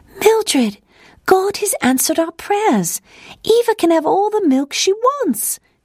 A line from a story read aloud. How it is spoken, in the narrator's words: she exclaimed